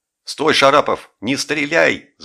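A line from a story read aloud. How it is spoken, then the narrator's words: Yelling. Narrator (Russian): заорал Жиглов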